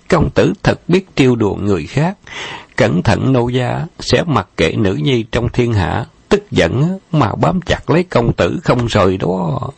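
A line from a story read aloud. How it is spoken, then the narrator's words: Giggling behind hand. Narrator (Vietnamese): Lan Di đưa tay che miệng cười khúc khích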